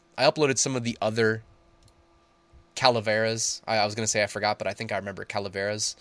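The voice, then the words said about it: Congested, sinus-heavy voice. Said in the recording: “my sinuses are just killing me. My whole head feels heavy. I don't know if you can tell by my voice”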